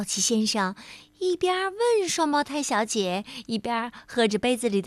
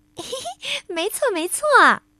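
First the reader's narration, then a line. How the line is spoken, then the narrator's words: Giggling. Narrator (Chinese): 另一位双胞胎小姐咯咯的笑着说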